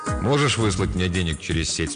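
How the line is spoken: Plain. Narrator (Russian): спросил я

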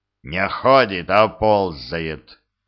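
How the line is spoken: Near growl. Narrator (Russian): почти прорычал в ответ Глодов

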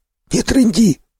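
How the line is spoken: Hoarse wheeze. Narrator (Russian): просипел второй

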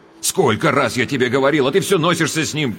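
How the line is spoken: Sharp scolding. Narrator (Russian): прикрикнул он на мать

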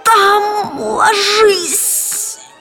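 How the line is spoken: Hoarse young woman. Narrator (Russian): прохрипела девица

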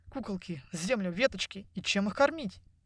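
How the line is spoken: Boy mumbling. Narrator (Russian): пробормотал мальчик

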